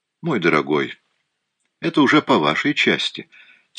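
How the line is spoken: Quiet. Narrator (Russian): тихо ответил Пуаро

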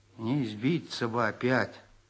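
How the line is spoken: Gloomy. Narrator (Russian): сказал он мрачно

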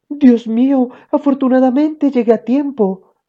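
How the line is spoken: Mother's exclamation. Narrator (Spanish): exclamó mamá

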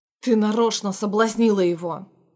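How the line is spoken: Man speaking through teeth. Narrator (Russian): процедил снова мужчина

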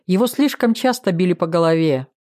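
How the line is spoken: Snorting. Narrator (Russian): Жданов хмыкнул

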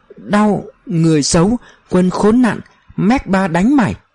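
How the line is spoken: Sobbing, stammering alien. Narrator (Vietnamese): Ông anh ngoài hành tinh này lại ngồi bệt dưới đất òa khóc, xoa bộ ngực khô đét, lắp bắp nói

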